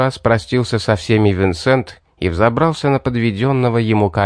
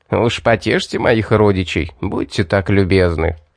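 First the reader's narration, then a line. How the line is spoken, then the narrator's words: Parting chuckle. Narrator (Russian): Хохотнул напоследок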